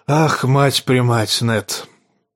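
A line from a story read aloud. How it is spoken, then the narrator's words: Hoarse voice, king. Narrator (Russian): проговорил хриплым голосом король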